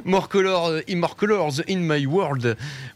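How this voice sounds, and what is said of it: Mock Ch'ti-English accent. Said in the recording (French): “avec mon super accent ch't'anglais. C'est entre le ch'ti et l'anglais. ... le ch'ti franglais”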